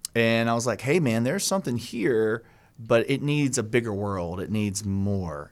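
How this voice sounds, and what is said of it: Southern American accent. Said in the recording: “charming Southern accent”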